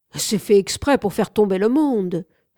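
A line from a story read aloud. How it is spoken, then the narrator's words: Someone exclaiming. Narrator (French): s'écria quelqu'un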